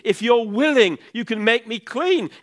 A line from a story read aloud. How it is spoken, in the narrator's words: man with leprosy begged him on his knees